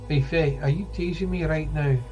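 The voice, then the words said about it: Put-on Irish accent. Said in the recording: “That's ... version of an Irish accent.”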